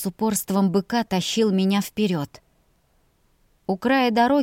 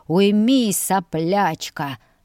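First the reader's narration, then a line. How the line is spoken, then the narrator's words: Growling. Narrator (Russian): рычал он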